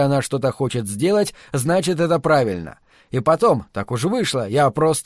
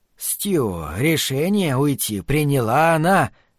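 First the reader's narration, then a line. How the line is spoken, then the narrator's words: Gentle reminder. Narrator (Russian): мягко напомнил Глен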